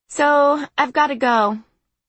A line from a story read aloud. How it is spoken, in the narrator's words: I said, keeping my voice casual